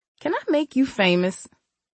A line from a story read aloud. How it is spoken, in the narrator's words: He laughed hardly